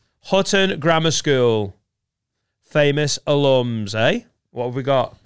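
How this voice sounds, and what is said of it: Usual voice. Nothing is said of it.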